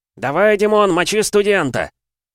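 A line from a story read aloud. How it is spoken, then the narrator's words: Crowd roaring louder. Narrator (Russian): публика заорала еще громче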